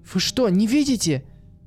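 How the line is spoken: Hysterical female cry. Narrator (Russian): в истерике вскрикнула она

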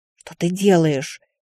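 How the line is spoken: Said slightly hoarsely. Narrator (Russian): немного хрипло произнесла

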